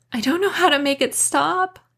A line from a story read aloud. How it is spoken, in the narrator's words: I wailed